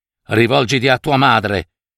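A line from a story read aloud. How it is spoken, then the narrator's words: Father, firm voice. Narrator (Italian): Con voce ferma il padre le disse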